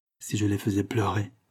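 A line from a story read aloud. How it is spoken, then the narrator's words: Low voice. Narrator (French): dit-il à voix basse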